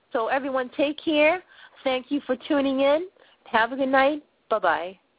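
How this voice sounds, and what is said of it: Boston accent. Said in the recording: “a rocky chick girl from Boston, Massachusetts, with this funny accent”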